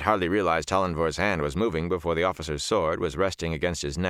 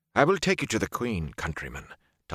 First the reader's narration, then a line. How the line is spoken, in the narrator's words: Tollenvor said softly